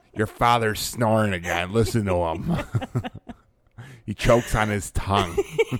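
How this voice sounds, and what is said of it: Imitates another person's voice. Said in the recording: “your impression of her”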